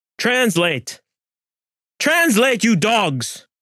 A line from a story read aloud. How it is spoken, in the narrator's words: Gonzalo screamed